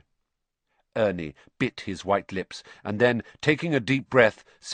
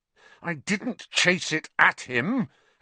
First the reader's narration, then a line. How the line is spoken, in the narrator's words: Harry said, his voice shaking with anger